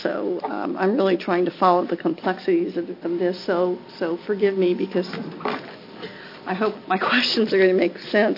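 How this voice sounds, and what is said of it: Congested, stuffy voice. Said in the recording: “I have a head cold,”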